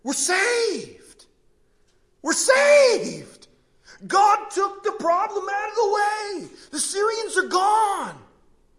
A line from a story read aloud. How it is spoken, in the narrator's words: begin to yell at one another